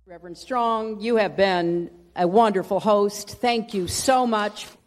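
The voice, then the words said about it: Strong Southern accent, dropped G's. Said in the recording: “dropping the Southern accent... it got even stronger... she really is dropping those G's”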